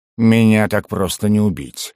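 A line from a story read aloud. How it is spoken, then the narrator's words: Growling. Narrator (Russian): зарычал Басс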